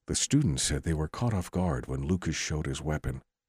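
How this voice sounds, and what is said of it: Mock NPR radio newsreader voice. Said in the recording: “Let me pull my NPR voice out.”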